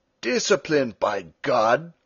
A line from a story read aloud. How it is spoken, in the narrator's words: Stumm cried